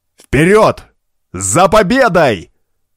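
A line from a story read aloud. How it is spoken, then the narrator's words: Thunderous northerner's shout. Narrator (Russian): громогласно крикнул северянин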